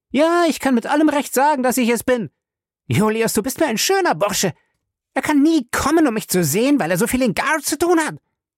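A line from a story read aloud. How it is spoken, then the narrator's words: Angry shout. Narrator (German): schrie aufgebracht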